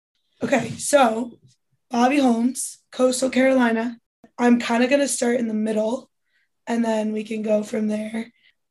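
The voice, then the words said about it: Hoarse, strained voice. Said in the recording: “I kind of lost my voice”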